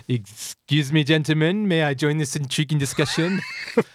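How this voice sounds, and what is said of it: Character voice with Corsican accent. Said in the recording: “a man with a Corsican accent interrupts.”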